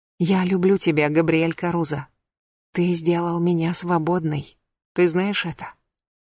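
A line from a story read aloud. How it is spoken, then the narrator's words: Whisper in ear. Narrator (Russian): Сильвер прошептала ему на ухо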